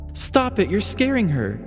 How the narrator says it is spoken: Margaret exclaimed

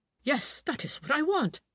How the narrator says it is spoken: he cried

